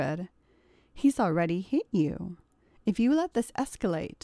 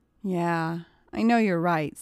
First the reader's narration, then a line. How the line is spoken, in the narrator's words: sighed Katy